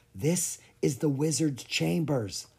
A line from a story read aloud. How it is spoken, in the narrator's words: Lucas whispered